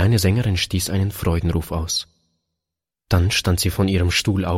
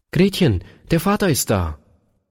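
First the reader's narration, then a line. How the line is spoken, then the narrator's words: Calling out. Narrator (German): seine Frau rief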